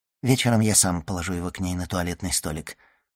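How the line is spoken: Muttered. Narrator (Russian): пробормотал он

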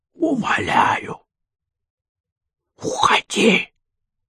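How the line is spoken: Hissing. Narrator (Russian): шипел Власов

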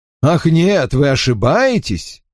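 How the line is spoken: Exclaimed. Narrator (Russian): воскликнул мистер Редмонд

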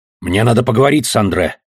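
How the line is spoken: Menacing. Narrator (Russian): сказал он грозно

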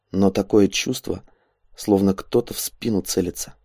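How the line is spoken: Quiet reply. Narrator (Russian): так же тихо ответил тот

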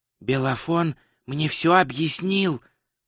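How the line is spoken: Whisper. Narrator (Russian): прошептал Два Цветок

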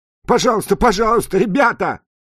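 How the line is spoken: Shouting while being beaten. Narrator (Russian): закричал Джуди под ударами, сыпавшимися на его голову и плечи

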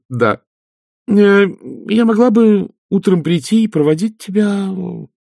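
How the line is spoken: Uncertain. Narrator (Russian): сказала Агнесса неуверенно

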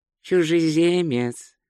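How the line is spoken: Even, level voice. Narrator (Russian): ровным голосом сказал Ринсвинд

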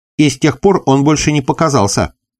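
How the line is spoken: Threatening exclamation. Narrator (Russian): воскликнул мистер Дин Форсайт, с угрозой

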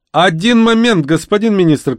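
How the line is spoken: Shout. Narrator (Russian): крикнул кто-то

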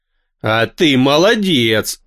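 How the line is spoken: Approving alien growl. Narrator (Russian): одобрительно рыкнул пришелец

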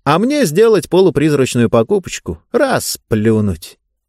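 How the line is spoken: Cheerful, chewing while talking. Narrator (Russian): сказал весело жуя

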